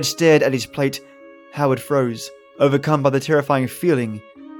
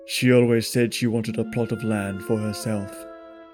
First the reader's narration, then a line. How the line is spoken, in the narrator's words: Fred spoke in a jarringly monotone voice